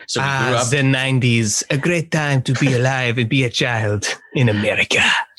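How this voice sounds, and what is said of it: Put-on French accent. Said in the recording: “you said that with a French accent”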